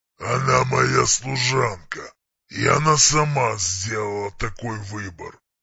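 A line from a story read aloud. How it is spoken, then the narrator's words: Calm but menacing. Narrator (Russian): Спокойно, но грозно отозвался Варк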